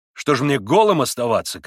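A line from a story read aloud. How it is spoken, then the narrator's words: Shouted. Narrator (Russian): крикнул он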